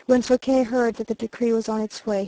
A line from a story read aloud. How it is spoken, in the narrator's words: he said with a sigh of relief